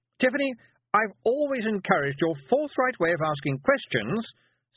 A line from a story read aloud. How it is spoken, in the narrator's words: said Miss Tick loudly